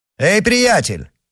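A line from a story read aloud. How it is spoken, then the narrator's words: Shouting. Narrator (Russian): крикнул герцог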